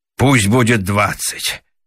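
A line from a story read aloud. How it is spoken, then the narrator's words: Sighing. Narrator (Russian): вздохнул Раменс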